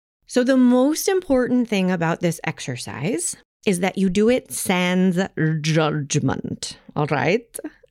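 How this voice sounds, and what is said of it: Loud emphatic funny put-on accent. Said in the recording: “I'm saying this in all caps and a funny accent”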